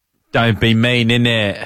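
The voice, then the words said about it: Put-on English accent. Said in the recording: “Do your English accent.”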